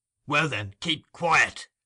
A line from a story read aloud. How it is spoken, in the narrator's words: rejoined Sikes, with a growl like that he was accustomed to use when addressing his dog